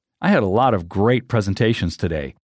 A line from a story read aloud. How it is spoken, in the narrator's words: the other one would say with a laugh